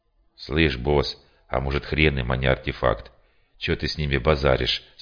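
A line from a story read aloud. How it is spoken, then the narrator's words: Plain question. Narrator (Russian): спросил, по-моему, Шкет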